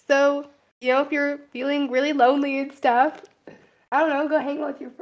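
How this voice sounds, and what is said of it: Voice giving out, straining. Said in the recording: “why did my voice start dying on me?”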